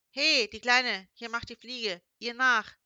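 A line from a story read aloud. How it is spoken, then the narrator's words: Calling out. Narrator (German): rief Fremde Nummer 2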